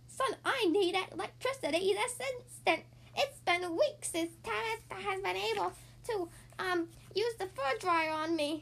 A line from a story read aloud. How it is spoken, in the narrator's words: an elderly cat screeched